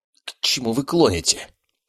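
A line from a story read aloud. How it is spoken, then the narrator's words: Hoarse wheeze. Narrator (Russian): просипел он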